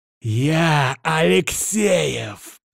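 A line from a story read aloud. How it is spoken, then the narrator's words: Angry hiss. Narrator (Russian): прошипел капитан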